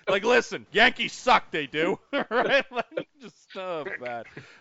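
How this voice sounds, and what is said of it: Thick Brooklyn accent. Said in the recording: “The thick Brooklyn accent”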